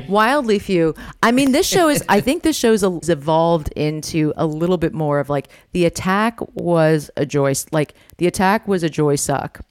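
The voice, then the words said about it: American-sounding accent. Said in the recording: “You grew up in Coventry, so you are UK born, and then, you know, despite the accent, you've lived in obviously America for many, many years.”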